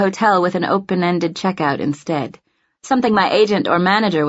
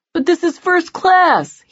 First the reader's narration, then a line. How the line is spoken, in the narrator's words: he whines